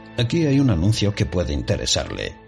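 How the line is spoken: Plain. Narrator (Spanish): dijo

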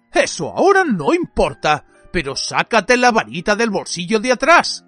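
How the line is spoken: Growled. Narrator (Spanish): gruñó Ojo Loco

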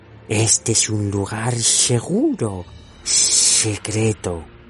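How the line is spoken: Hissing. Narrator (Spanish): le siseó

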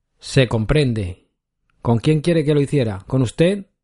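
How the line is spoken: Curt reply. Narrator (Spanish): replicó secamente la mujer de Pepón

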